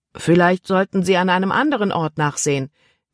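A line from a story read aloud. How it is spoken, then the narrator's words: Calling downward. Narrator (German): rief er hinunter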